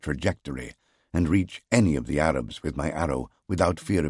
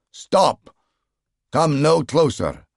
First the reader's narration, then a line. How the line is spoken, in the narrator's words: The echoes of his voice boomed off the roof of sandstone above him